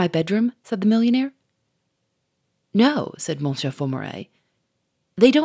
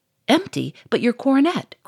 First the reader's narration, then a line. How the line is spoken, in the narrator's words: cried the Duke